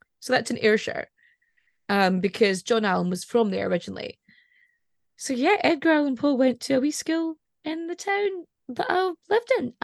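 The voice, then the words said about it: Scottish accent, Edinburgh or Highlands. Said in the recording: “I actually sound more like I'm either from Edinburgh or from the Highlands”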